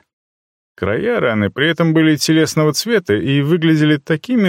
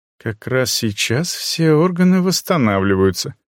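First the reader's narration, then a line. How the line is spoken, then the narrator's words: Calm. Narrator (Russian): спокойно ответила Ашу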